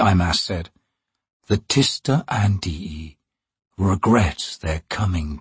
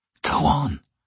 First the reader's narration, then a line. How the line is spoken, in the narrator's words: Lorne said quietly